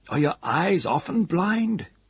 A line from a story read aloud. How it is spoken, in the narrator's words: the changer cried, as if enraged